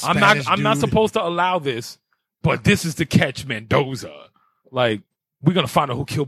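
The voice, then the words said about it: Imitates another person's voice. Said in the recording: “my Fast and Furious impersonation”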